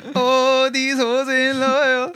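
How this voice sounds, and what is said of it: Sung line in put-on Indian accent. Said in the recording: “why are you singing that Indian accent?”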